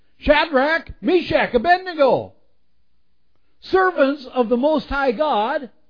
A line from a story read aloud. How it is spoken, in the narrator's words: Nebuchadnezzar then approached the opening of the blazing furnace and he shouted